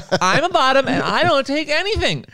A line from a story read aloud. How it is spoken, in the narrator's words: that one person on Twitter is going to yell at you and be like